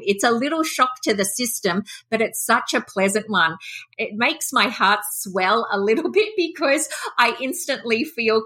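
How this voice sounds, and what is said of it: Australian accent. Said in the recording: “I am so happy to hear another Australian accent.”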